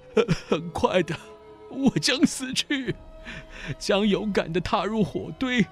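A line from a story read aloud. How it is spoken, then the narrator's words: Monster's solemn, sorrowful wail. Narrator (Chinese): 怪物带着肃穆又悲伤的声音哭喊着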